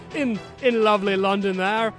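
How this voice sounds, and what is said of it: Poor attempt at English accent. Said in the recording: “That was not an English accent”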